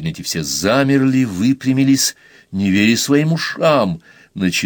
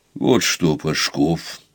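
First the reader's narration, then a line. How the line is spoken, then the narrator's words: Quiet, unyielding. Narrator (Russian): сказал Лосев тихо, совершенно непреклонным голосом, каким ему не положено было говорить с областью, тем более с Пашковым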